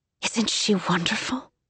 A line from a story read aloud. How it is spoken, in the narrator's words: She whispered